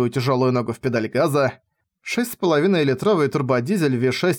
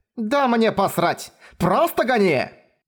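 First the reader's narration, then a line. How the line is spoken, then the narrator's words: Screaming. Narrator (Russian): Завопила она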